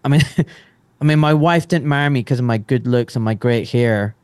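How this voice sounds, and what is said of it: Pleasant accent. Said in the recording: “I love your accent. Your accent is so great that when you swear, it doesn't sound like you're swearing.”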